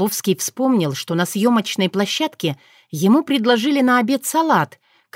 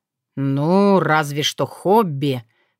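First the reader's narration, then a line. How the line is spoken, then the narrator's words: Doubtful drawl. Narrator (Russian): с сомнением протянул Сокол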